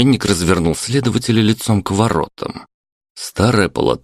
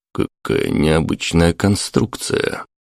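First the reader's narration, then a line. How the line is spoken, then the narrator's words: Muttering. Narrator (Russian): пробормотал Сергейцев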